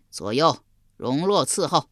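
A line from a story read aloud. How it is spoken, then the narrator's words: Joyful loud voice. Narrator (Chinese): 襄王喜得合不拢嘴，高声说道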